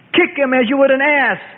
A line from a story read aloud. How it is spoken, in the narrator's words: yelled a scribe